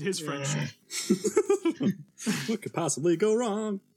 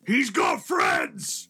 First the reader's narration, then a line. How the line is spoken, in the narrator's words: the orc chieftain yells